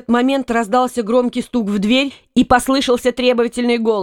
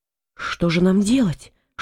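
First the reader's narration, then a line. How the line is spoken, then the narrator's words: Whispered question. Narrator (Russian): шепотом спросила Ампаро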